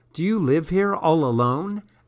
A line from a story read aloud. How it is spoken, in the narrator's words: asked Goldfish Ghost